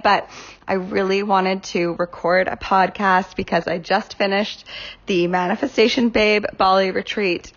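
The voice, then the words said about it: Slightly sick, off-sounding voice. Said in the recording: “excuse me if I cough a little bit in this podcast. I'm a bit sick ... my voice is a little bit off today”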